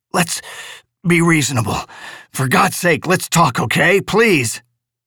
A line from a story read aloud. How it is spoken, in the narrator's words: he grated, wheezing for breath